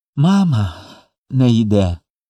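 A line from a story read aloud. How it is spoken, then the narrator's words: Sobbing. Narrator (Ukrainian): промовив Коля і схлипнув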